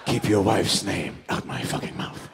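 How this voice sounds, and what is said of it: Alec Baldwin impression. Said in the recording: “Pretty good... I've never tried an Alec Baldwin before”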